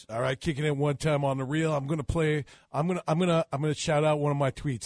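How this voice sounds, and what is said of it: Impression of Brett Lawrie. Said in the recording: “we have a Brett Laurie impersonator in studio to impersonate Mr. Laurie”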